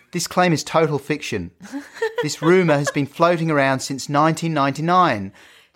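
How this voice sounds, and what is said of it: Offensive put-on accent, Melbourne academic. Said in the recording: “I'm going to carry on doing this offensive accent. ... I'm quite invested in this character of yours, yeah. Who's at Melbourne University. ... This is sounding very patronising and racist”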